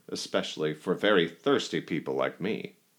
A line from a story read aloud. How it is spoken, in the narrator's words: laughed the cantor